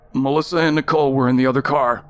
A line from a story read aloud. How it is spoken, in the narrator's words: Chad half yelled